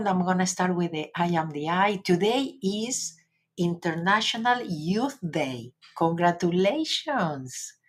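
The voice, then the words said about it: English with an Argentinian accent. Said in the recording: “this is kind of English with an Argentinian accent.”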